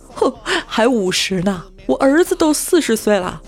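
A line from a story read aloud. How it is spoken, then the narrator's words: Cheerful laughing old woman. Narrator (Chinese): 老太太笑得合不拢嘴，乐呵呵地回答说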